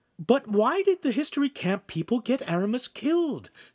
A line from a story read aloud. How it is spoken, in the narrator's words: Shamira asked anxiously